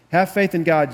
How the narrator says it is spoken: Jesus answered

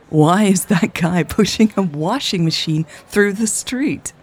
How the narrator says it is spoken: Raven asked, laughing

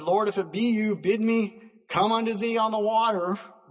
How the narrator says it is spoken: Peter called out and said

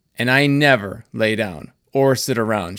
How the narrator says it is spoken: she said

